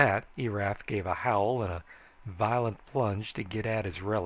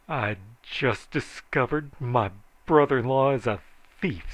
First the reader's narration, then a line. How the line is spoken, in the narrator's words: said Joel bitterly